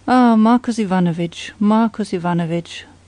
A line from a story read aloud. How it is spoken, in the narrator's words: sighed the inspector